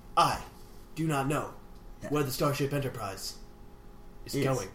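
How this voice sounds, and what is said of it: Captain Kirk-style impression voice. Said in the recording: “Captain Kirk voice”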